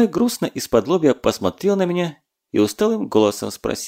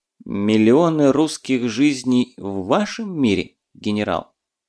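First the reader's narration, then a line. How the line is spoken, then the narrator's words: Calm clarifying question. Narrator (Russian): уже спокойно уточнил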